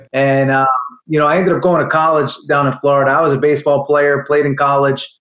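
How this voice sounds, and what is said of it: New York accent. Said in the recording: “I'm from the New York area as you may be able to tell from my accent.”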